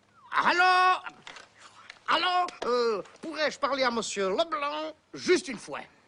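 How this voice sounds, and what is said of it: Put-on Belgian French accent. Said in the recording (French): “Je prends l'accent belge ?”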